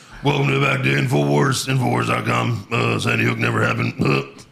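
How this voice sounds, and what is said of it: Deep-voiced Alex Jones impression. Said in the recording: “an Alex Jones impression ... That sounds like Seth Rogen trying to do Alex Jones ... That's his like deep voice”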